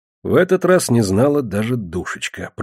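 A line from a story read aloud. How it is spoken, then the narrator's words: Muttered. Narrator (Russian): пробормотал я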